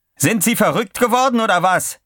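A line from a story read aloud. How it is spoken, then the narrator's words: Shouting. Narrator (German): schrie McPherson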